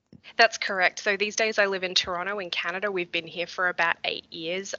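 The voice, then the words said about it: Very interesting accent. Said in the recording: “you have a very interesting accent.”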